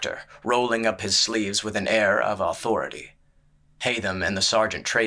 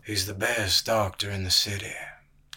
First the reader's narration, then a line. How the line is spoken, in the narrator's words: came the gray man's voice, low and slow and slightly slurring